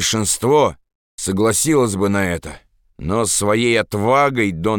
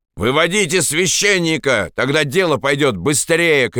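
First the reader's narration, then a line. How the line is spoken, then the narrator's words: Shout. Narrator (Russian): крикнул кто-то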